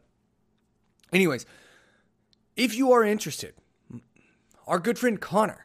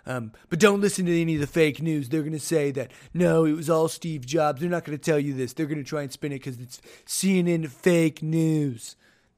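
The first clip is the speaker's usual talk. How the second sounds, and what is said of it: Imitates another person's voice. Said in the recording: “roast me on my impression of Trump ... I can't quite get that high pitch out of my throat, the right tone”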